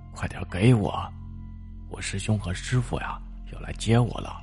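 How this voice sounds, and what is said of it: Quiet, hushed voice. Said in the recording (Chinese): “小声的说道”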